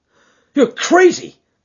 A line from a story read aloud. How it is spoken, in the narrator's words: he cried fiercely